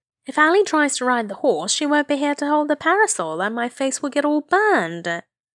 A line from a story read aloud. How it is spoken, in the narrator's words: whined